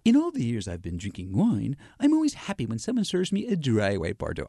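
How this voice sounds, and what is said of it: Snooty, posh wine-critic accent. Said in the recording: “I'm gonna give you my a little bit of a snoot accent ... I can't keep that up.”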